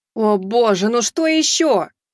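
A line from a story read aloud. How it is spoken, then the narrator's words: Angry shout. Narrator (Russian): зло выкрикнула эльфийка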